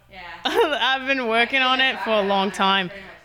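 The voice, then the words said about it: Imperfect put-on Australian accent. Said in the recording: “my Australian accent. Is it great? No. ... it's a lot of mouth talking”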